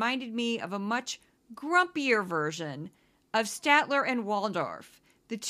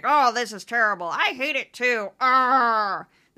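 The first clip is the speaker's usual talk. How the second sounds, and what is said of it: Grumpy old man complaining voice. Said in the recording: “That's my impression of Statler and Waldorf. Just grumpy old men complaining”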